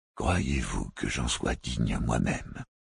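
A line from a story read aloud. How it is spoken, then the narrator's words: Plain. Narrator (French): dit l'intendant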